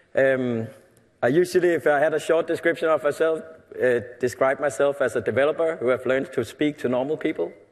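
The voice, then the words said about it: Danish-accented English. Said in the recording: “I'm from a company in Denmark, in Europe. You might be able to hear that on my accent.”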